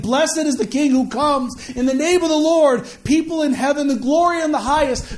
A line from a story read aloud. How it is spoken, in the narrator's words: the people were shouting